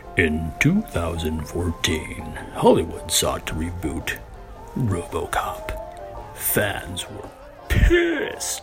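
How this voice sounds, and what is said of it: Dramatic movie narrator voice. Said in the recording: “Do you want my movie voice? I'll do my movie voice.”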